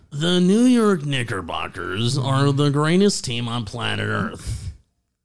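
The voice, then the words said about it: Imitates another person's voice. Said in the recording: “do a good Steve Summers impersonation ... That was pretty good.”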